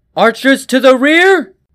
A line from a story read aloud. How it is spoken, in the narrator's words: King Leeson shouted again